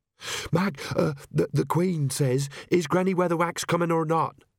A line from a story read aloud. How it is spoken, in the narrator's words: she panted